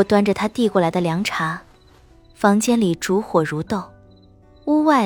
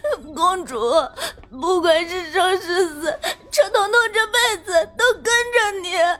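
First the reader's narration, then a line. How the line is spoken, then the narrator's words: Crying. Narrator (Chinese): 车彤彤哭着说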